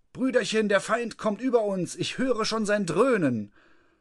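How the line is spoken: Calling out. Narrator (German): Der Nasenmann rief

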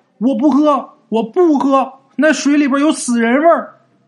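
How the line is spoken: Shouting while running. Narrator (Chinese): 一边跑一边嘴里边还喊

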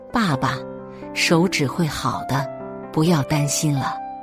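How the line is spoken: Son speaking softly. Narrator (Chinese): 儿子轻声说道

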